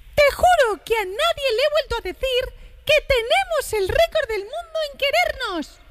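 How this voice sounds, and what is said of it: Mickey Mouse cartoon voice. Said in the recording (Spanish): “letra de la canción leída por ... poniendo la voz de Mickey Mouse ... Porque te sale muy bien.”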